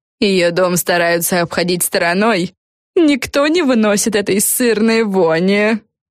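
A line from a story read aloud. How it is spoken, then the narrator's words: Giggling. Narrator (Russian): хихикнула Силия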